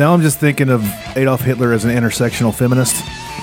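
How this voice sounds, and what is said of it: Usual voice. Nothing is said of it.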